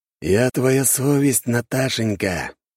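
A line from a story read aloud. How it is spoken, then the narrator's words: Hoarse, disguised voice. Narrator (Russian): говорю все так же хрипло, неузнаваемым голосом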